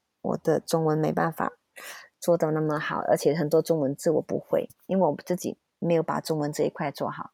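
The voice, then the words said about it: Malaysian-accented Mandarin. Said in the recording (Chinese): “我以前在马来西亚 ... 你那时候有觉得自己有口音这件事情吗？ ... 公司一直觉得我口音不 OK 啦，所以一定他们要我讲中文跟台湾讲的一模一样”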